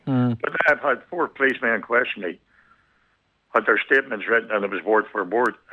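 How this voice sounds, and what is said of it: Broad Belfast accent. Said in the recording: “my big, broad Belfast accent”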